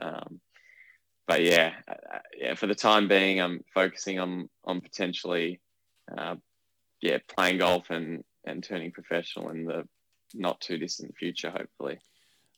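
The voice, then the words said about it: Slight Australian accent. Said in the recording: “with a little bit of an Australian accent thrown in”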